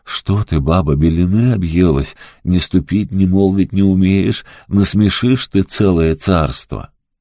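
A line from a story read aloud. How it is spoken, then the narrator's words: Frightened old man pleading. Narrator (Russian): Испугался старик, взмолился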